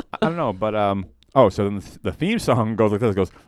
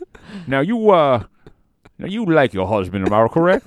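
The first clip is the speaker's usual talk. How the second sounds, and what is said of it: Imitates another person's voice. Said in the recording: “your impression of Steve Harvey”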